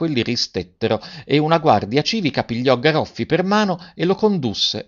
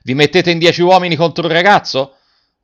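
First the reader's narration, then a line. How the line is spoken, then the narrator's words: Shouting. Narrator (Italian): Garrone gridando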